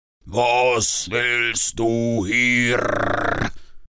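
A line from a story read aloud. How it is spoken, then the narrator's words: Dragon roaring. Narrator (German): brüllte der Drache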